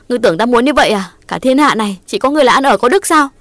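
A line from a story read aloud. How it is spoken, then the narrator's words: Aggrieved loud shout. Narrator (Vietnamese): Ngọc ấm ức quát lớn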